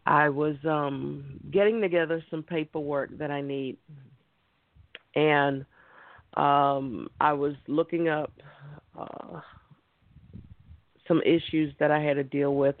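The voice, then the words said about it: Tired, worn-out voice. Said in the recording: “I'm tired. ... I guess you all can hear it in my voice that I'm tired, I'm worn out.”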